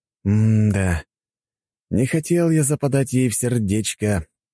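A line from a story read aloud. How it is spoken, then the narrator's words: Sigh, then speech. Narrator (Russian): вздохнув морозного воздуха, сказал я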